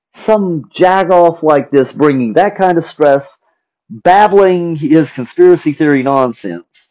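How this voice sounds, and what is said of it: Thick regional accent. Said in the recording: “I know my voice changed a little bit. I know my accent's a little thick.”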